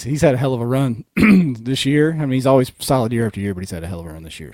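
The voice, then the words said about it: Hoarse, fading voice. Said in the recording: “I'm losing my voice... it's literally fading on me right here.”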